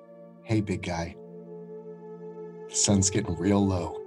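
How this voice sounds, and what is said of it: Very calm, soothing voice. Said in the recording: “in my calmest voice”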